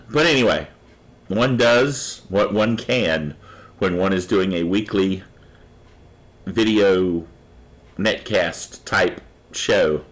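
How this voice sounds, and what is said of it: Rough, cracking voice. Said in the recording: “My voice is a little rough this week. I've been fighting off some things of a cold-like nature... My voice is really cracking up a bit.”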